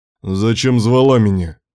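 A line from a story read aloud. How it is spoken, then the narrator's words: Sharp, self-angry question. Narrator (Russian): спросил резко, злясь на себя за слабость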